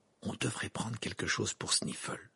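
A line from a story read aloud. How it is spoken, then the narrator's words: Murmuring. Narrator (French): murmura Harry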